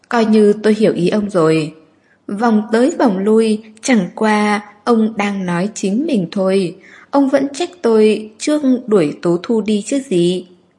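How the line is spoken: Sneering. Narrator (Vietnamese): Nguyễn Tuyết Mạn cười khẩy

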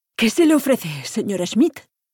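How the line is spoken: Panting, sing-song Mexican accent. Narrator (Spanish): jadeó con su cantarín acento mexicano

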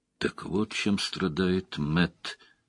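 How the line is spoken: Quiet. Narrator (Russian): тихо произнес Лойл

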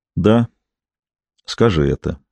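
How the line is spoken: Quiet prompt. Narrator (Russian): негромко подсказал я

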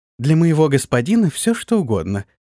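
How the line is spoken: Happy, smiling voice. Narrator (Russian): радостно раскрыла рот в улыбке самая маленькая из сестер

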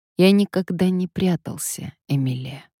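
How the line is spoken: Calm reply after pause. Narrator (Russian): Рикардо помолчал, а потом спокойным голосом ответил

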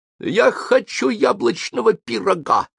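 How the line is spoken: Shrill falsetto. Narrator (Russian): визгливым фальцетом сказал

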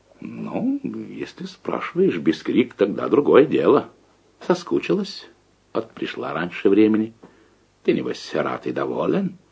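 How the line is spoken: Mockingly calm. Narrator (Russian): Лужка издевательски спокойно проговорила

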